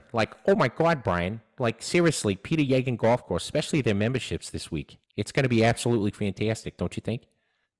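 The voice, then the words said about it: Cartoon character Boston accent. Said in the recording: “like Peter Griffin ... Boston accent”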